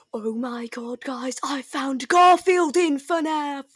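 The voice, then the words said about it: Put-on British accent. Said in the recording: “Oh my god, the British accent”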